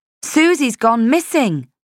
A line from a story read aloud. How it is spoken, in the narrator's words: I said again, a little sharply